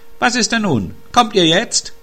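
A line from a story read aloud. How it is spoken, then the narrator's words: Calling out again. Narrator (German): rief der Wunschhase wieder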